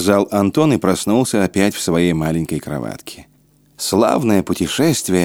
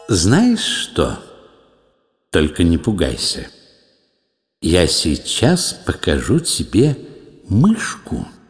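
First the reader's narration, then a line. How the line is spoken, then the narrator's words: Plain. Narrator (Russian): сказал Оля Лукойе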